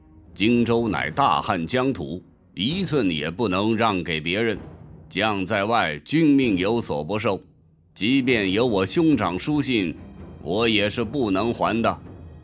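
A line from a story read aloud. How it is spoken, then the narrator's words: Deep, displeased voice. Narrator (Chinese): 关羽根本没有好脸色，沉声说道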